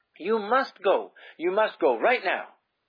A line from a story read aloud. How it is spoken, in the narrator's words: he cried urgently